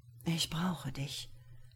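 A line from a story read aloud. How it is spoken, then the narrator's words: Whispered. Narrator (German): flüsterte Claudius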